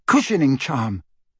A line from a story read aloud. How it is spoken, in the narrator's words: Hermione spluttered